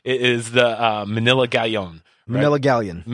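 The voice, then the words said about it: Exaggerated Filipino accent. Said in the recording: “Don't overcompensate. ... It's my natural accent. ... Because you have a Filipino accent?”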